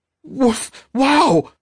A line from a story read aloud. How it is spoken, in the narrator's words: he exclaimed